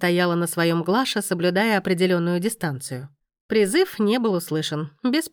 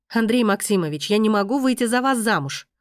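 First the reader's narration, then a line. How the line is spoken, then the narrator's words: Loud and confident. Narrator (Russian): громко и уверенно сообщила Глаша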